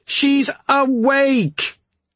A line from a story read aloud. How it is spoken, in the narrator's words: Brynn shouted this time